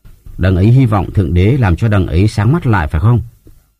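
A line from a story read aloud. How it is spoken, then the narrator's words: Bitter, smiling man. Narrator (Vietnamese): Gã kia mỉm cười chua chát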